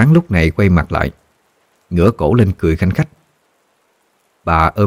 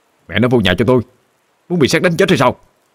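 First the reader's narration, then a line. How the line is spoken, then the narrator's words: Man shouting. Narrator (Vietnamese): ông quát lên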